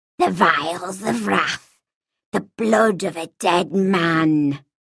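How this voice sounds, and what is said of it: Weird whisper. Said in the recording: “The words came to our ears in a weird whisper”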